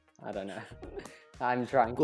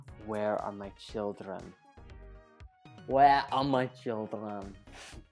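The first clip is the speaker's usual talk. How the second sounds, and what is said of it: Wanda's Sokovian Russian-like accent. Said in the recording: “how does her accent go? It's kind of Russian, isn't it? ... she flips when she's angry ... She goes into her Sokovian accent.”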